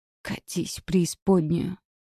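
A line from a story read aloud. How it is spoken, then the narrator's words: Hoarse whisper, wounded man. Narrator (Russian): хрипло прошептал раненый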